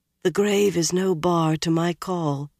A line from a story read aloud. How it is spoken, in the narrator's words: she translated, so softly she seemed to be speaking to herself